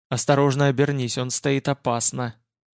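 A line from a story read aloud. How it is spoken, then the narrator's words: Quiet. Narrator (Russian): тихо молвил я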